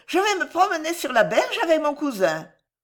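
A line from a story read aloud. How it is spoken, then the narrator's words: Shouting. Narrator (French): cria-t-elle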